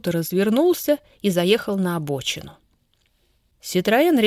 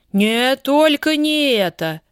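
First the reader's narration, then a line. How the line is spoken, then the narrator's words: Parental exclamation. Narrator (Russian): воскликнул отец родительским голосом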